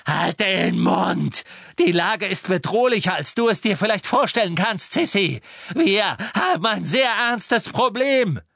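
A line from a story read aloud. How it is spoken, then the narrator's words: Screaming. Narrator (German): schrie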